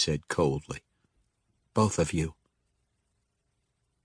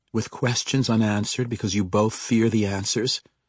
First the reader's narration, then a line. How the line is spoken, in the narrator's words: Caterbree said sharply